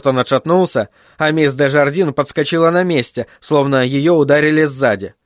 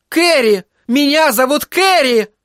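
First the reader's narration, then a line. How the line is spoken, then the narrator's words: Sudden shriek. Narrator (Russian): Вдруг взвизгнула она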